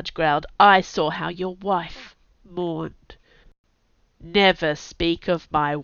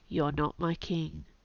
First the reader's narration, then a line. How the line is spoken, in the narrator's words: he said quietly